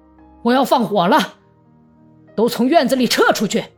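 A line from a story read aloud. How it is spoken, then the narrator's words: Loud shouting. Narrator (Chinese): 他不住地大声喊道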